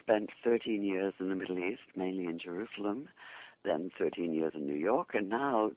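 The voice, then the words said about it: English accent. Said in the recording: “I born in England, obviously from my accent”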